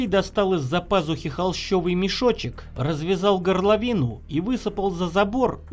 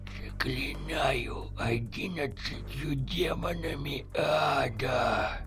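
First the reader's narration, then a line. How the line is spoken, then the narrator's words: Whisper. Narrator (Russian): Зашептал Авдей страшные слова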